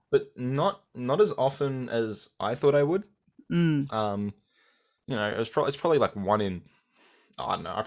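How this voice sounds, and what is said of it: Australian accent. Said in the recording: “I've got an Australian accent ... I love your accent”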